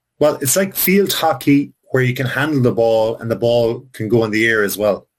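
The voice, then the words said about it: Irish accent. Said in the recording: “do you know your accent is fantastic? ... Irish slang”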